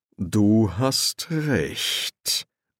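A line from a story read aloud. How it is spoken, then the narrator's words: Slow. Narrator (German): sagte Erzi-Raphael langsam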